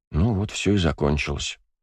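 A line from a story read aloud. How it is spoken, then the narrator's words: Quiet. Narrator (Russian): тихо проговорил Бельфигор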